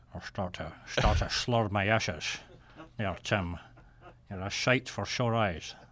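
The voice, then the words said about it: Put-on Scottish accent impression. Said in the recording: “Celtic Soviet submarine captain... with the Scottish accent... Sean Connery”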